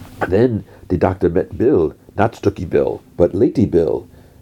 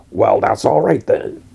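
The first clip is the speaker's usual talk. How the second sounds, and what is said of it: Put-on American accent. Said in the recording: “And in an American accent, he's like, well, that's all right then. ... In an American accent.”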